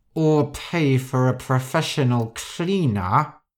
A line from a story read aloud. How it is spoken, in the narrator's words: Rosa said through gritted teeth